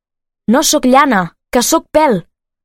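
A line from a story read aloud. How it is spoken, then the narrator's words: Shout. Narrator (Catalan): va cridar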